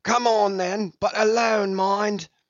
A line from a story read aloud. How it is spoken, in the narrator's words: Brown called out